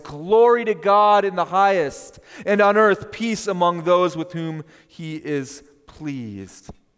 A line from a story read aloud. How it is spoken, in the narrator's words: The whole host ... they sing in a loud voice